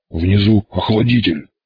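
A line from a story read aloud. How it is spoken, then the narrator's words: Hoarse wheeze. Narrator (Russian): прохрипел Боров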